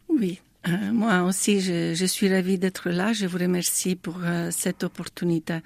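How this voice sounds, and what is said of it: Italian accent speaking French. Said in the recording (French): “vous avez un merveilleux accent ... je suis italienne”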